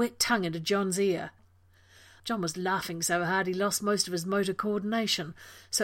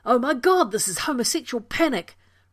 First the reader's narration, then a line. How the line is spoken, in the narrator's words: Rodney yelled, slapping at him in between snorts of laughter